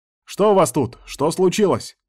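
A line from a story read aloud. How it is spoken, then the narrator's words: Shouting from darkness. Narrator (Russian): крикнул из темноты Вильхар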